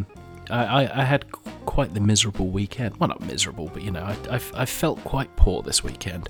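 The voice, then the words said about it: Rough voice from a cold. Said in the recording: “excuse my voice if it is terrible or if I suddenly devolve into a coughing fit... on the tail end of an arse of a cold”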